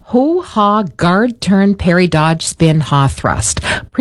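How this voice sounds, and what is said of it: Words spoken slowly. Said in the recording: “Say it slowly.”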